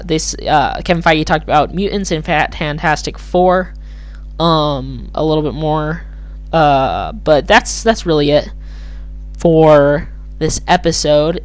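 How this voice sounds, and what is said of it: Slightly hoarse voice. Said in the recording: “Sorry if my voice is a little bit hoarse.”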